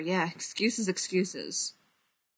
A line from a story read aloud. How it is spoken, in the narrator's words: Tony mutters